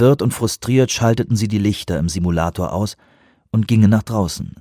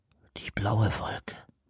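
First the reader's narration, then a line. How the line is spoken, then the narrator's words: Whispered. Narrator (German): flüsterte Reuben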